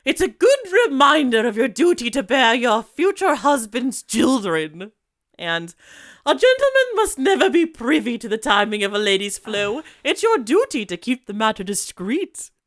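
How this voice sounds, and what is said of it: Put-on British mother voice. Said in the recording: “I'm going to do a good, like, British mom voice,”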